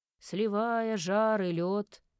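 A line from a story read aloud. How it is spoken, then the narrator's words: Dreary intoning priest. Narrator (Russian): уныло вещал жрец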